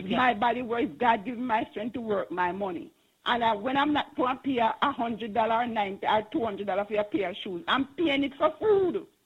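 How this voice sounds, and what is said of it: Passionate, impassioned speaking. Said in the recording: “I can hear the passion in your voice.”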